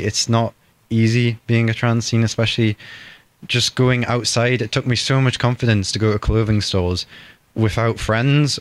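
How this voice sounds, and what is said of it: Quite deep voice. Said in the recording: “you can probably notice my voice is quite deep”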